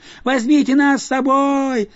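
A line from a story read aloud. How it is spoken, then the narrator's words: Children yelling. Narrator (Russian): завопили дети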